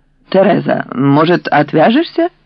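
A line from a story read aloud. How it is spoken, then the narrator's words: Hesitant suggestion. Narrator (Russian): Люцина неуверенно предложила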